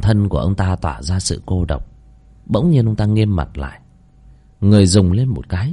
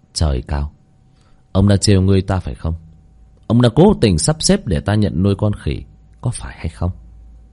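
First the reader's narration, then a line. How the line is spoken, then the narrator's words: Smiling. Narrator (Vietnamese): Mỉm cười, ông ta nói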